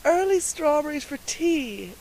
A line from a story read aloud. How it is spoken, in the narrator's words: exclaimed Miss Lavendar